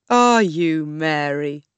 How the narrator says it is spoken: he laughed

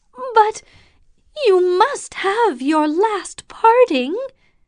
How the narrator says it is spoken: his companion cried

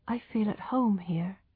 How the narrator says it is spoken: murmured Tess

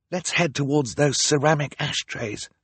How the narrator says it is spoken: Violet whispered

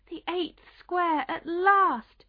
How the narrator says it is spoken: cried

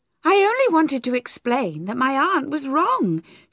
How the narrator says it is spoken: answered eagerly

